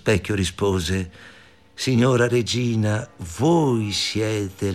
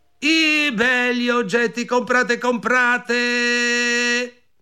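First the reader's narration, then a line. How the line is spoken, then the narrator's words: Shouted. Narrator (Italian): gridò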